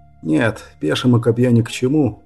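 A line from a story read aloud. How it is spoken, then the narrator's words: Mumble. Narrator (Russian): пробормотал он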